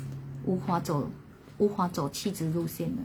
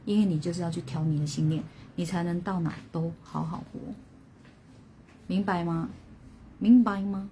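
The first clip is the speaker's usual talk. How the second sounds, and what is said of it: Imitating 凤梨叔叔's accent. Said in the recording (Chinese): “我这个是在学那个凤梨叔叔 ... 我要调口音”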